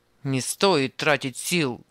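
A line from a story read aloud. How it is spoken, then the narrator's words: Rough grumble. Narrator (Russian): грубо пробурчал Анисим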